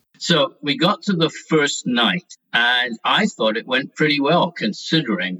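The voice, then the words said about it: Scottish accent. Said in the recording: “as you can probably tell by his accent, had come to London from Scotland”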